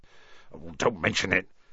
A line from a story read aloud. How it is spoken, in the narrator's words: said Hagrid gruffly